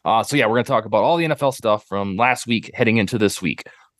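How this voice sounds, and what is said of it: Slightly off, wonky-sounding voice. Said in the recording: “my voice is a little wonky tonight... I'll sound a little bit off... The voice is just a little goofy.”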